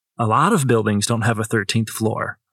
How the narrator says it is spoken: I said

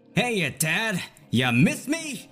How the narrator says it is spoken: He chuckled, shouting

